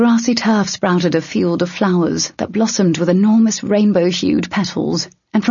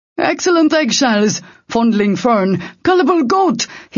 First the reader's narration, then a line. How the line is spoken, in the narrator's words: he shouted in sudden confusion